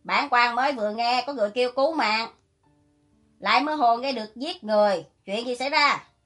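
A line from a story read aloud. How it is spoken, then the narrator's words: Loud question. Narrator (Vietnamese): Tôn Chỉ Hải không thèm để ý, lớn tiếng hỏi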